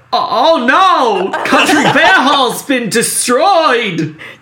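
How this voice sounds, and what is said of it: Imitates another person's voice. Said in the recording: “That was actually a really good impression.”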